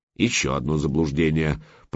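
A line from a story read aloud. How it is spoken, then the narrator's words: Grumbled. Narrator (Russian): проворчал собеседник берсерка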